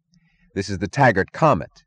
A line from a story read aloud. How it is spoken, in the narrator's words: said Eddie Willers, choking